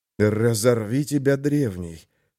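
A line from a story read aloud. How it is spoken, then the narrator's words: Mage cursing. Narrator (Russian): выругался маг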